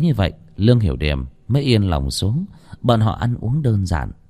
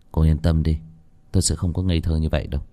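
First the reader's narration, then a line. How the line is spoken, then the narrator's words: Sighing. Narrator (Vietnamese): Lô Tiểu Bắc thở dài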